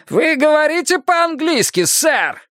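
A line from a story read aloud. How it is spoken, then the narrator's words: Loud yell. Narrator (Russian): на весь ресторан завопил он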